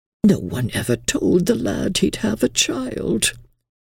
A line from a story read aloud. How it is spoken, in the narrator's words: Miss Avery, calm but murmuring tenderly